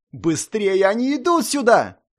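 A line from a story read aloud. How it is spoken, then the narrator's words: Shrieking. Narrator (Russian): Буквально визжала Арайя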